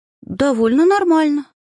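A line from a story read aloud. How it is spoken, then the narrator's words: Strained, anxious. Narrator (Russian): выдавила, ощущая, как внутри все переворачивается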